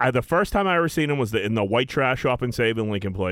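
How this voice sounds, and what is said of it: Usual voice. Nothing is said of it.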